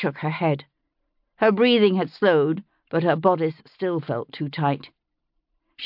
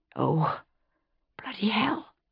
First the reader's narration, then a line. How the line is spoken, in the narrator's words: she whispered